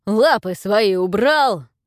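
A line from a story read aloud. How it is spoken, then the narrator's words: Familiar growling voice. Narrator (Russian): прорычал до боли знакомый голос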